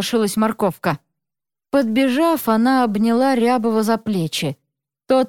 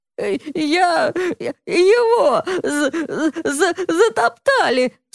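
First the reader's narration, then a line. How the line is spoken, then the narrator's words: Sobbing. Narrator (Russian): всхлипывал Рябов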